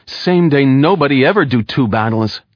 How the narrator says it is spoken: Wiggin answered

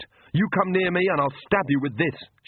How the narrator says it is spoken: she shouted

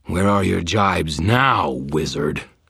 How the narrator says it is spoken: Kravos snarled

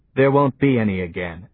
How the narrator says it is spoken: said Johnny

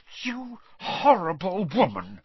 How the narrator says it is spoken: said through gritted teeth

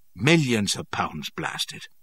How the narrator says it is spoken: he said curtly

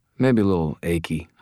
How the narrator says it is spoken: I said

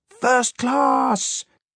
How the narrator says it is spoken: screeched out this Dr

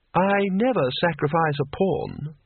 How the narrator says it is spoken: said the lady

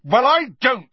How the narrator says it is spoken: he said as loudly as before

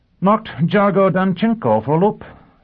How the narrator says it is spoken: Sheffield reported triumphantly

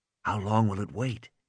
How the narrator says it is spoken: Malcolm whispered

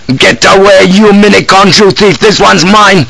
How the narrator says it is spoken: suddenly shouted

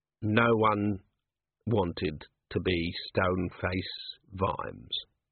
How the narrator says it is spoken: Vimes said coldly

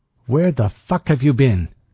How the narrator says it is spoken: Ortega snapped

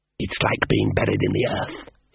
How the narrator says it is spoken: hissed the elf

